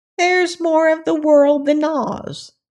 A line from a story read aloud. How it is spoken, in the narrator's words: declared the crab in a stubborn voice